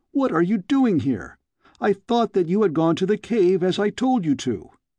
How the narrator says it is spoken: I cried

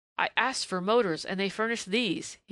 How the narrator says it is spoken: cried disgustedly

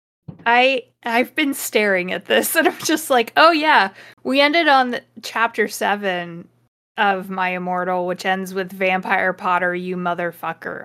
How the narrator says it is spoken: I yelled

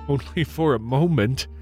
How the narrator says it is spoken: replied with a laugh

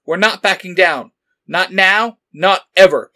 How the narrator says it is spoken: Black Ranger shouted

